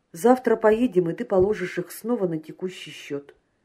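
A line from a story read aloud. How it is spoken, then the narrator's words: Plain. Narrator (Russian): сказал Прохоров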